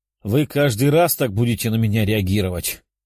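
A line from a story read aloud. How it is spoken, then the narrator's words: Demon's short laugh. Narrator (Russian): хохотнул демон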